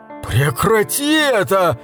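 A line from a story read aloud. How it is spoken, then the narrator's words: Shouted. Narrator (Russian): закричал он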